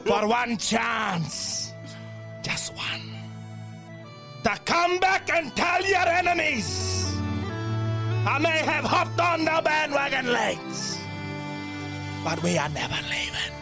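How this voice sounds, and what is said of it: Speech in a put-on accent. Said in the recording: “What is that accent?”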